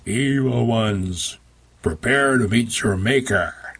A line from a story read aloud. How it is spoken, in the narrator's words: boomed